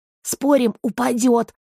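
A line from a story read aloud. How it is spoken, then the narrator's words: Excited whisper. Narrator (Russian): азартно прошептал Гор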